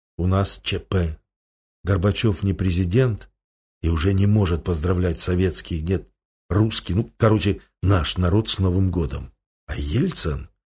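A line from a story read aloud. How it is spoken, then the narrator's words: Frightened whisper. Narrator (Russian): побледневший редактор телевидения, продолжая бледнеть на глазах, зашептал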